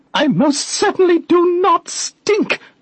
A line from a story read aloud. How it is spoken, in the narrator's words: she screeched, impatiently